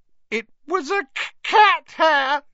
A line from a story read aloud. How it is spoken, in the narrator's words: she howled